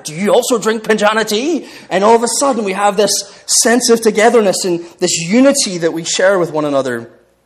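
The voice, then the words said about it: Northern Irish accent. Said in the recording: “that beautiful, sweet lullaby of Northern Irish ... they hear my accent ... in Northern Ireland, like, we all have this accent”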